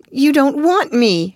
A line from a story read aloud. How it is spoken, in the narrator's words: she cried